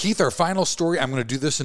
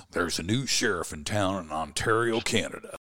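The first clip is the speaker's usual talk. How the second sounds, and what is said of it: Imitates another person's voice. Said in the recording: “in my best John Wayne voice.”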